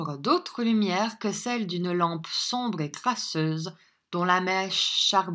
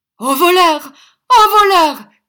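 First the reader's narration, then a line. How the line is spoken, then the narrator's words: Alarmed shout. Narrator (French): cria l'usurier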